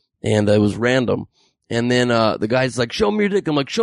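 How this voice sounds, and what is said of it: Usual voice. Nothing is said of it.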